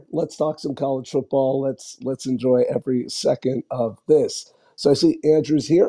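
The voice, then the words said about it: Hoarse, worn-out voice. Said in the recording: “I have absolutely lost my voice... should have made my voice leave me, but I think I got a little sick”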